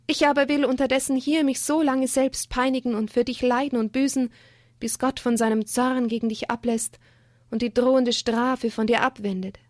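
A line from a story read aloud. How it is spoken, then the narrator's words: Calling out. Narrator (German): ruft er dem Verführer zu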